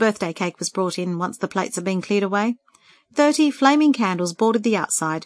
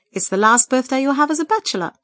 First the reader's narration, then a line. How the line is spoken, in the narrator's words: Peter's mum teased merrily